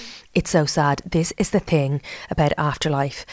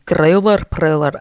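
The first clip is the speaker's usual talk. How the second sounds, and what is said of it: Put-on accent. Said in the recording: “I don't know why I'm saying it in that accent. I just feel like growler has to be in whatever the accent is.”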